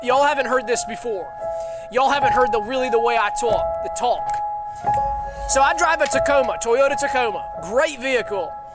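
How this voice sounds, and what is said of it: Southern American accent. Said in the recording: “I'm going to get real Southern with y'all tonight. And I'm going to let my real accent come out.”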